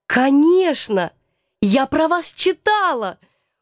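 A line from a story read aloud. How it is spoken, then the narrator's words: Eager, fascinated exclamation. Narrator (Russian): воскликнула я, всей душой захваченная интересом к этой новой неординарной персоне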